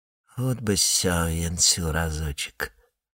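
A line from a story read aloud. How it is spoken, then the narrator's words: Entranced whisper. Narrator (Russian): завороженно прошептал он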